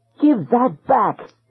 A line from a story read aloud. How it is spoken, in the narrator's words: Thalia shrieked